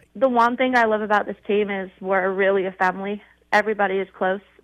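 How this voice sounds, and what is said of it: Non-American foreign accent. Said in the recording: “If you can't tell by my accent, I'm not from the U.S.”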